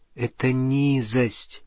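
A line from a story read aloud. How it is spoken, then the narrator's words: Quiet. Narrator (Russian): тихо сказала она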